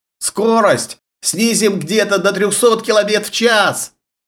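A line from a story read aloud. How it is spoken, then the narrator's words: Shouted. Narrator (Russian): кричал бортинженер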